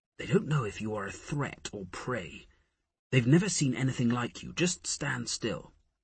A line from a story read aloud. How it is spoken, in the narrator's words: Harris murmured in his ear